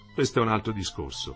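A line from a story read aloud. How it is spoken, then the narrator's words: Said softly. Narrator (Italian): disse piano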